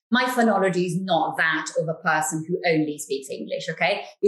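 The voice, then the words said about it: Italian accent in English. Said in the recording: “you can detect an accent ... it's an Italian accent ... you can hear that the English is not my first language”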